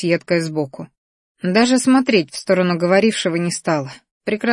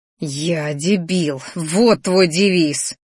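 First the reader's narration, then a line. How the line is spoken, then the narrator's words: Angry hiss. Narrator (Russian): Злобно зашипела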